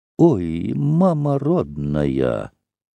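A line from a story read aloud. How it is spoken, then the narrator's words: Sighing whisper. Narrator (Russian): вздохнула и шепотом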